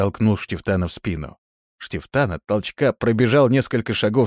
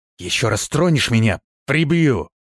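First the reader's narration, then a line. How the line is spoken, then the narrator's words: Hissed. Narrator (Russian): прошипел он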